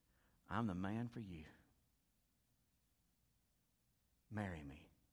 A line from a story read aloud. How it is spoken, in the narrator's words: he began to speak tenderly to her, to try to convince her